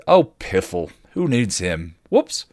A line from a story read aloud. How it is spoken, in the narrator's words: Willow scoffed